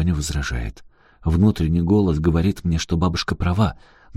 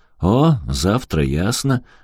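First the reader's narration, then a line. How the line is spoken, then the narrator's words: Forced cheerful old woman. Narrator (Russian): говорит бабушка каким-то деланно веселым голоском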